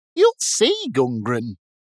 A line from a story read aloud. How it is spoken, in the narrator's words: grumbled Whiz Fiddle